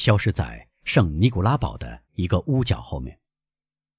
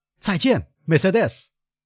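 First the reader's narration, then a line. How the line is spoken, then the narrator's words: Prisoner calling out. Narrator (Chinese): 囚犯叫道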